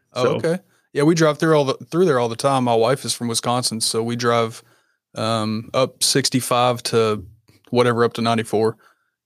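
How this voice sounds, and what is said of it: Southern US accent, Kentucky. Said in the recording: “what's your accent? I can't quite place it. It sounds like maybe Georgia. ... A little bit further north. I'm in Kentucky.”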